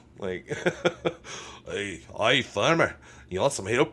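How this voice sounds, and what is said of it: Poorly done put-on character accent. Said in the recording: “My accents are horrid.”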